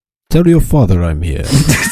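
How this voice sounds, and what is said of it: Put-on accent. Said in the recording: “you have to do an accent because the rest of us have to do accents ... Yes, that accent.”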